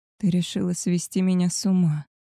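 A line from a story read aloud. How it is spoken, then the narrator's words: Aroused moan. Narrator (Russian): простонал он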